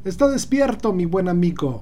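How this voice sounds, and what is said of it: Poorly imitated unidentifiable foreign accent. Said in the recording (Spanish): “con un acento que no puedo ubicar y que imito bastante mal”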